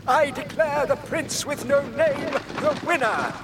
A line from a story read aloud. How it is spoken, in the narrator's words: cried the king